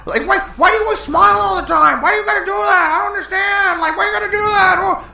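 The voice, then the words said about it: Loud imitation of a TV character. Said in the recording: “Do you have to be so fucking loud? ... doing that voice ... this fucking character ... that Nick character”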